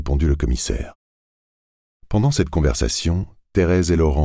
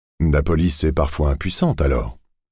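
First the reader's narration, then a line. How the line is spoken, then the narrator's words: Plain. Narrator (French): a dit Grivet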